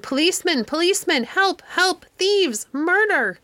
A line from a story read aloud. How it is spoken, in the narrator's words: Such a screaming as that old woman made